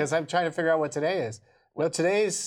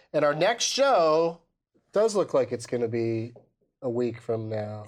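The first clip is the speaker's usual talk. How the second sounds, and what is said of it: Dramatic delivery. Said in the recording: “Why'd you say that so dramatically?”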